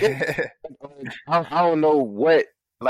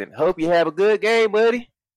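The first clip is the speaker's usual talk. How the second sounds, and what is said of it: Mixed Southern and Canadian accent. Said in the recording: “I did a fucking Alabama accent, but that's my country Canadian accent... my Alabama Canadian”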